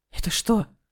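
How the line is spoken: Frightened breathless. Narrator (Russian): испуганно выдохнул он

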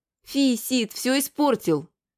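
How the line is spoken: Squeak. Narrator (Russian): пискнули опять

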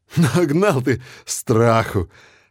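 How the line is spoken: Mocking. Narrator (Russian): насмешливо говорю я Мирону

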